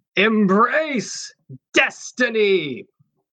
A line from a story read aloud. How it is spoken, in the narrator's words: this woman's voice shout out